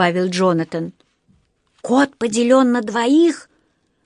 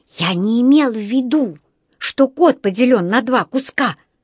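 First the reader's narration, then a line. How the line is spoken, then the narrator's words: Whispered. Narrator (Russian): прошептал Джонатан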